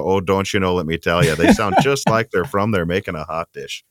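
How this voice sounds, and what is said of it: Put-on Minnesota accent. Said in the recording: “my accent sounds more like the people from the movie Fargo when I'm up in Minnesota ... you really do that accent very well”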